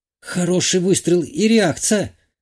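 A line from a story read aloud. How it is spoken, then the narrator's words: Hoarse. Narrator (Russian): хрипло произнесла Шитова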